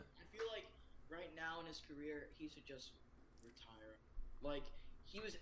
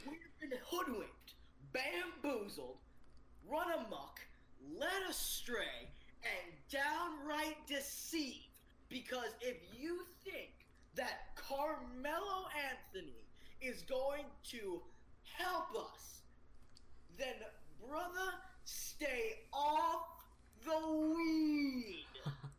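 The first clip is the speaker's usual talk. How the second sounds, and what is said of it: Impression of a speech. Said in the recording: “That was a nice impression.”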